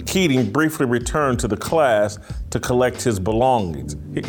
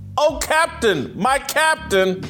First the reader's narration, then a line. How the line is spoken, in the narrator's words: The boys staged an impromptu classroom insurrection, shouting